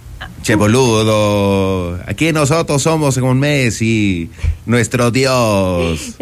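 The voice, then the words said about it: Put-on Argentine accent. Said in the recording (Spanish): “¿Te sale el acento argentino?”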